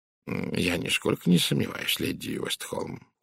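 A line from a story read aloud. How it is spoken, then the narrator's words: Polite purr. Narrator (Russian): учтиво промурлыкал Пуаро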